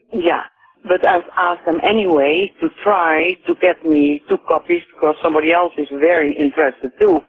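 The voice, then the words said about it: Dutch accent. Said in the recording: “I hear an accent in you... From Holland.”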